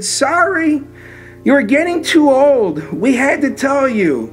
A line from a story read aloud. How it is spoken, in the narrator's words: My mom she just cried and she said